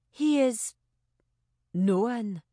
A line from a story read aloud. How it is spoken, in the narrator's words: Amabel said tightly